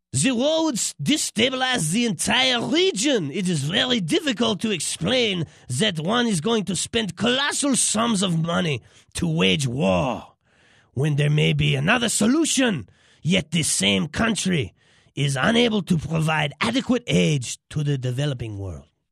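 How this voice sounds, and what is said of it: Imperfect put-on French accent. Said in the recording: “French accent slipping a little bit, but, I'm not a professional at this.”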